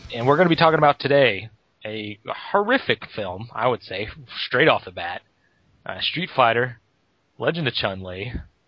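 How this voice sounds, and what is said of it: Smoky, husky voice. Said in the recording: “my voice is a little smokier than usual ... because I've been talking all day ... this vermouth-sounding vocal cords”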